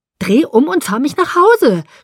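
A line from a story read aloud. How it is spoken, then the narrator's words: Scream. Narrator (German): schrie ich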